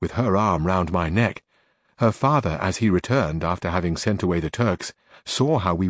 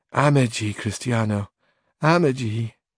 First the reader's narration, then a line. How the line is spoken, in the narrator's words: she, sighing, her eyes still wet with tears, said again